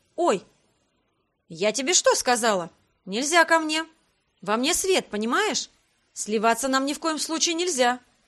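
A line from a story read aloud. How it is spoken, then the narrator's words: Stern. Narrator (Russian): строго произнесла я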